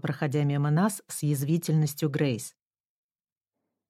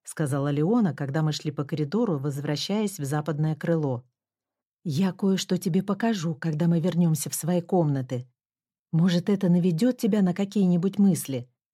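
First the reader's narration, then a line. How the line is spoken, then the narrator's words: Plain. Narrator (Russian): ответила я Леоне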